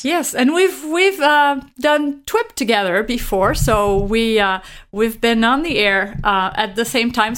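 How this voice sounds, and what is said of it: Musical-sounding accent. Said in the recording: “I love the way you say your name. It just sounds so musical ... It's that beautiful accent.”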